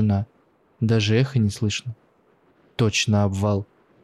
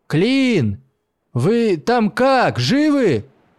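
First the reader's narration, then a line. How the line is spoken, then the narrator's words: Shouting with all his might. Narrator (Russian): Изо всех сил закричал он в темноту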